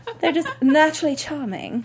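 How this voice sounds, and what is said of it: Put-on British accent. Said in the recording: “That was my British accent, guys. ... It was good.”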